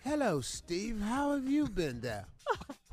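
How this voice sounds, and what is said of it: Put-on British accent. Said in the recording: “They have a British accent... with the English accent... use your real voice”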